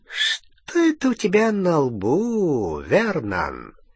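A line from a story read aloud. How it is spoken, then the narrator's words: Insinuating, breathing close. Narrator (Russian): вкрадчиво спросил Сивый, дыша прямо в ноздри Гарри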